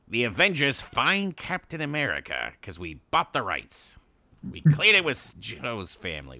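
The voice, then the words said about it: Imitates another person's voice. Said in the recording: “my Stan Lee impression”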